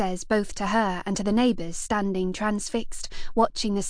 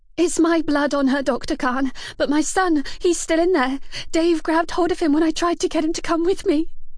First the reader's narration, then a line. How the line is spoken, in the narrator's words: gasps